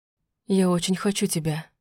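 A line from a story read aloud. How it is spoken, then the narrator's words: Breathless passionate whisper. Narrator (Russian): прошептал он между поцелуями, задыхаясь от страсти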